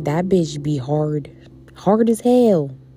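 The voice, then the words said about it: Slips into a southern accent. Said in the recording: “that southern accent”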